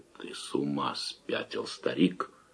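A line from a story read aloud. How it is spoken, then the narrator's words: Cold. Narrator (Russian): холодно отозвался Давыдов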